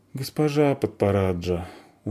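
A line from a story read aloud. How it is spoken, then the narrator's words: Glum. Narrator (Russian): уныло сказала Заверушка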